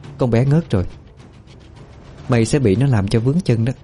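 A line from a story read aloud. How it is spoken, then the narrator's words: Faint cold smirk. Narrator (Vietnamese): Cô Phong khẽ cười nhạt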